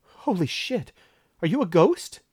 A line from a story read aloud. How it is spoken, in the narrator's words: said, and then sputtered